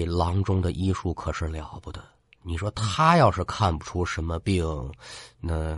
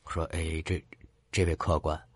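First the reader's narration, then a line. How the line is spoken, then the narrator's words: Soft, quiet voice. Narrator (Chinese): 店主 轻声的就跟他说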